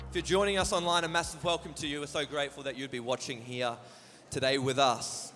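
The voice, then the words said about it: Strained voice recovering from overuse. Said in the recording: “apologize for my voice. I'm not sick. I just have been at Tribal Wars on Friday night ... we do chants and stuff, and my voice is still recovering from Friday night. So if I struggle a bit ... my voice suffers for it consistently”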